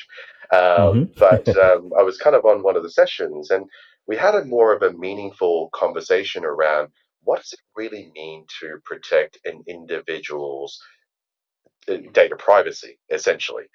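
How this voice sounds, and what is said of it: Australian accent. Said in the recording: “I am Australian, and hence why my accent is a little bit strange.”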